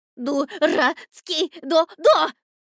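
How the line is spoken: Shrill squeal. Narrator (Russian): взвизгнул он

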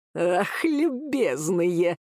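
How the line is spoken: Angry laugh. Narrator (Russian): человек зло посмеялся

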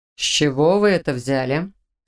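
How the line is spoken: Stern question. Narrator (Russian): строго уточнил ректор

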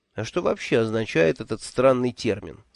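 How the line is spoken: Plain question. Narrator (Russian): спросил я

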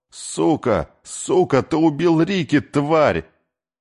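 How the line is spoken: Scream. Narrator (Russian): закричала

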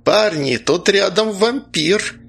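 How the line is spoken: Sudden exclamation. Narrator (Russian): воскликнул вдруг Прозос

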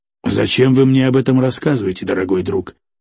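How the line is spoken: Quiet question. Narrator (Russian): тихо спросил трейдер

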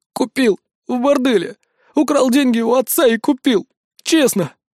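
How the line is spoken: Frightened young man. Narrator (Russian): испуганно ответил парень

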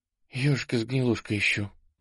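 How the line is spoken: Breathy exhale. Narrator (Russian): выдохнула она

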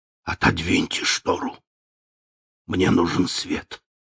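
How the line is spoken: Frightened sharp whisper. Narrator (Russian): он испуганно вздрогнул и сказал резким шепотом

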